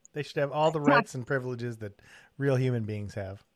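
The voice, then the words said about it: Sarcastic delivery. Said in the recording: “that was sarcasm,”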